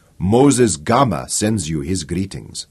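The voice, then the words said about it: Deep, melodious African accent. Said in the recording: “a strange voice speaking with a deep, melodious African accent”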